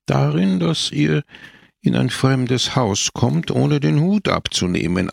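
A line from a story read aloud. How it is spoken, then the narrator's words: Calm answer. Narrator (German): antwortete Don Camillo ruhig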